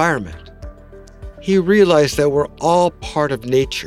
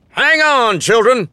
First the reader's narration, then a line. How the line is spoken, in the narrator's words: shouted boisterously